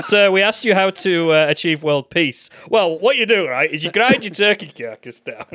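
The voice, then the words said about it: Imitation of co-host's voice. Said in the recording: “is that my voice?... I do a better impression of you than you do.”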